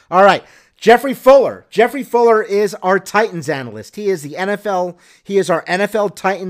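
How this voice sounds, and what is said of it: Usual voice. Nothing is said of it.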